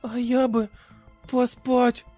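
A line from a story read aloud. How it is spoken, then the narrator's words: Slurred drowsy babble. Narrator (Russian): заплетающимся языком пролепетала Тия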